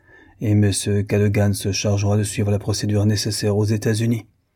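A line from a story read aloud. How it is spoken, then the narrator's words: Cold, continuing. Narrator (French): continuait Norton froidement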